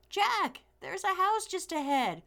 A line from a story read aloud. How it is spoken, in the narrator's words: Fred, who was ahead, shouted